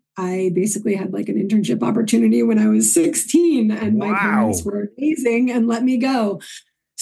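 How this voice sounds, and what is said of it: New York accent, slightly toned down. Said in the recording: “your accent ... my New York accent was a little bit much. So I try to tone it down”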